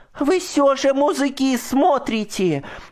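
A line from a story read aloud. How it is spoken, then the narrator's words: Shout. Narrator (Russian): закричала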